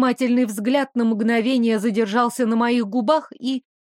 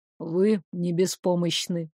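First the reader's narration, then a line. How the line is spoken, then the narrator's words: Calm remark. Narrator (Russian): спокойно заметил Дамиан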